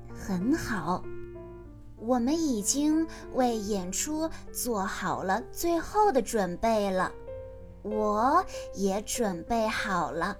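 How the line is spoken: Soft. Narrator (Chinese): 她轻声地说道

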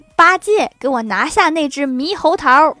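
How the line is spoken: Sudden shout. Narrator (Chinese): 突然，唐僧大喊

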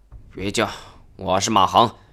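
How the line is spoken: Low voice. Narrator (Chinese): 一个人低声说道

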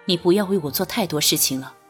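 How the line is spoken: Sighing. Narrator (Chinese): 君玉叹息一声

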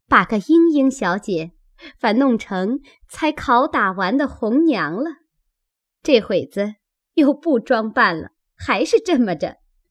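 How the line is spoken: Laughing. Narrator (Chinese): 麝月笑道

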